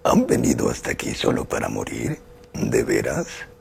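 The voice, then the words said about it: Male-sounding character voice. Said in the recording (Spanish): “la voz no tiene filtro, que fue Gozer de The Ghostbusters ... Yo no tengo voz de hombre, pero caracterizaba ... Esa es voz de hombre.”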